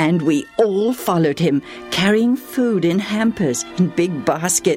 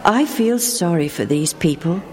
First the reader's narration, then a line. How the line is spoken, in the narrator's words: he said